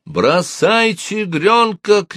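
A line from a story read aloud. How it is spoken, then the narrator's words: Shouted. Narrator (Russian): крикнул Рене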